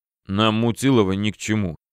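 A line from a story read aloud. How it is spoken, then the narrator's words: Displeased grumbling. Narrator (Russian): нахмурившись, пробурчал главный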